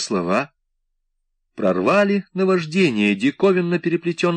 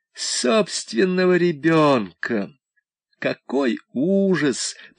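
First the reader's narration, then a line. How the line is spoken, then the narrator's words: Through gritted teeth. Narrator (Russian): процедила мать сквозь зубы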